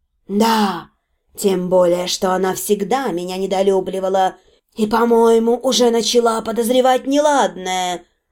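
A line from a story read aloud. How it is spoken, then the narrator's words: Calm confirmation. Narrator (Russian): спокойно подтвердила Валенсия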